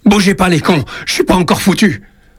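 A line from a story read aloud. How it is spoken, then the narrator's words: Shouting in rage. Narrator (French): Il crie sa rage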